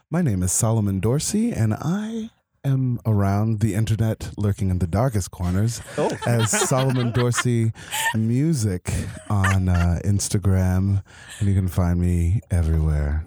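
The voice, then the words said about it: Smooth radio announcer voice. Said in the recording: “He's got that radio voice.”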